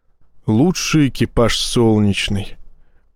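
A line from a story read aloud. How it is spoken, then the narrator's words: Muttering to himself. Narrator (Russian): пробормотал себе под нос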